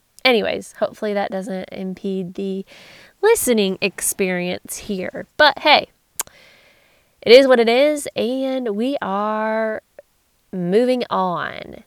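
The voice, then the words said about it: Congested, nasal voice. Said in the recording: “I'm going through a sinus infection, so very congested and nasally.”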